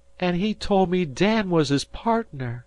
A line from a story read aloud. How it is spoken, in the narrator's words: she cried